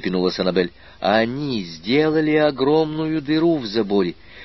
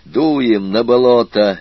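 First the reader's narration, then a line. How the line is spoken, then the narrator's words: Barked. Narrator (Russian): рявкнул аспирант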